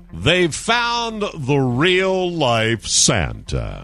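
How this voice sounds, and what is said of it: Announcer voice. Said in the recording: “I'll put my announcer voice on.”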